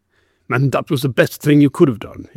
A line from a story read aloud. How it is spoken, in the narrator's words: he growled